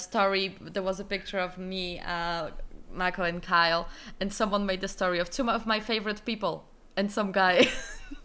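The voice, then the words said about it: Irish accent. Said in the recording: “my accent is bad ... your Irish accent”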